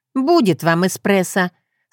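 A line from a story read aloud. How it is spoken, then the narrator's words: Loud, for all to hear. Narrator (Russian): сказала громко, так, чтобы слышали все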